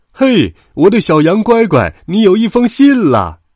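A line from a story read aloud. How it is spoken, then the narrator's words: Father calling out. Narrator (Chinese): 羊爸爸叫着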